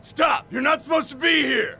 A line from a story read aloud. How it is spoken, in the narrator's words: The security guard shouted